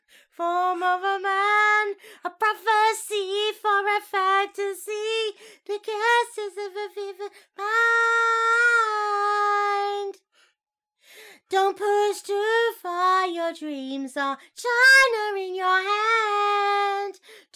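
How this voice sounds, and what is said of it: Put-on Chinese accent while singing. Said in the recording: “Are you aware you're doing like a Chinese accent?”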